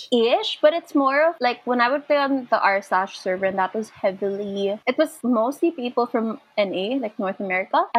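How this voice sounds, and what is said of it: Filipino-accented English, high-low intonation. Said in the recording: “I love your accent ... I didn't think my accent was that heavy ... I will never sound American ... you sound like Eastern European ... my voice is very, like, high-low ... sometimes I sound very Americanized, and then sometimes it's just full on”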